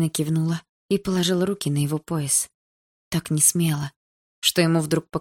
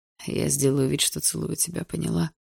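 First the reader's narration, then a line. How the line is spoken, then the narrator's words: Barely audible question. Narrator (Russian): Едва слышно спросил Барс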